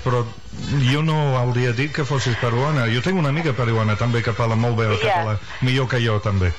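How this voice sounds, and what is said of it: English accent speaking Catalan. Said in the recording (Catalan): “Jo visc aquí des de fa 24 anys i encara tinc un accent anglès”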